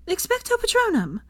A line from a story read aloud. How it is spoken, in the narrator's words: Hermione said, shouted